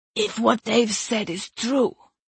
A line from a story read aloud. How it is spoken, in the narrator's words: Sumer rasped